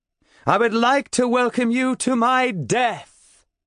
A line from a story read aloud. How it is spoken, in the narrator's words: I shout